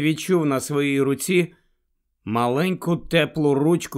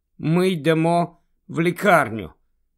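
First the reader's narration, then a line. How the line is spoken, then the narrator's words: Plain. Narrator (Ukrainian): сказала Джинні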